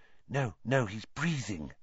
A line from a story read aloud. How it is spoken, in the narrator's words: whispered Hermione